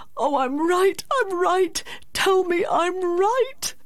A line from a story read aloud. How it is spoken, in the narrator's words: he cried out as a child